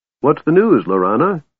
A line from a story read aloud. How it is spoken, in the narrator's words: Tass asked cheerfully